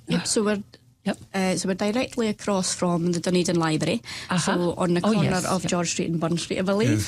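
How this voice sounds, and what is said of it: Non-local accent. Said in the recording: “as you can tell by this accent, I'm still getting the lay of the land”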